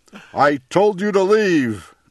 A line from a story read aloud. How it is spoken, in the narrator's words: cried the bear